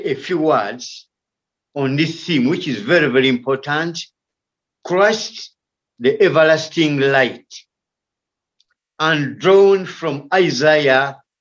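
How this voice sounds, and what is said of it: Coarse, rough voice. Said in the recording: “my voice is a bit coarse. I've been having a bit of malaria and cough ... Don't worry about my coarse voice. This is not my normal voice.”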